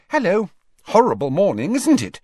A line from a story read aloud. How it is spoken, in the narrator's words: Hermione said brightly